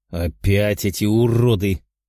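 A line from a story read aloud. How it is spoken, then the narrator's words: Growled. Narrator (Russian): прорычал Герман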